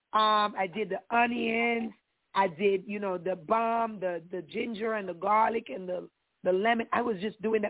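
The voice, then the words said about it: Slightly raspy voice. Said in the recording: “My voice is a little bit raspier. That's just because the weather changed”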